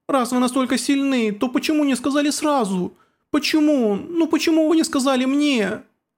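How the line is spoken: Sobbing amid screams. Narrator (Russian): Рыдания правителя затерялись среди криков детей

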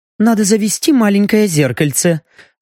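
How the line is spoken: Sighing after failure, elf. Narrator (Russian): вздохнула эльфийка после безуспешной попытки рассмотреть отражение шеи в клинке ножа

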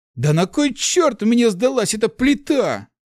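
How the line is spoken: Shouting into emptiness. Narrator (Russian): крикнул Март в пустоту

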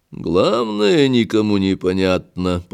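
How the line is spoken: Muttering. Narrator (Russian): пробормотал Дюфур

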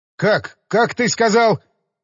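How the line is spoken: Shout. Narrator (Russian): прокричал лейтенант Сыроватко

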